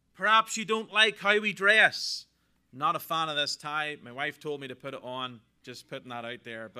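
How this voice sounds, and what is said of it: Irish accent. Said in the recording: “Irish accent”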